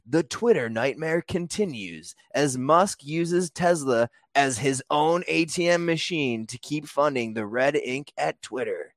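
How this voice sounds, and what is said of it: Dramatic, emphatic put-on reading voice. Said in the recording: “put on my controversial voice ... my emphasis, my voice here that I'm going to do”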